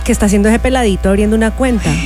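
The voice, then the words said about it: Put-on Colombian Spanish accent. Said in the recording (Spanish): “Es un acento colombiano.”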